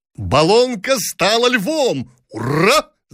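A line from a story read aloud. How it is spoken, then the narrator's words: Men shouting with laughter. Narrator (Russian): закричали офицеры с хохотом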